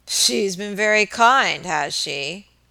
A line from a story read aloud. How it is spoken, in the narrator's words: muttered Mr